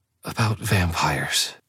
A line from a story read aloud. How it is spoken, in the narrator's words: she breathed, the words less than a whisper